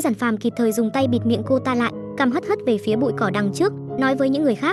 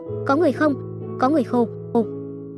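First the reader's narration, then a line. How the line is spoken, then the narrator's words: Terrified crying. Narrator (Vietnamese): Từ Nhu sợ tới nước mắt rơi xuống, khóc lóc dãi dụa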